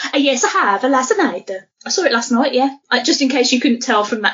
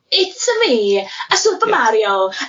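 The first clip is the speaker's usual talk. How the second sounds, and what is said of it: Bad put-on Italian accent. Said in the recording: “that terrible Italian accent I was doing”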